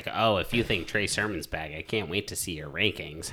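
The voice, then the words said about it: Imitates another person's voice. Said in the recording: “That's a damn good Jeff impression.”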